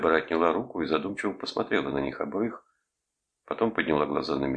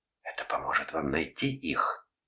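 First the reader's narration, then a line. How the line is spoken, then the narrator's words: Seductive whisper. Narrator (Russian): прошептала она тоном искусительницы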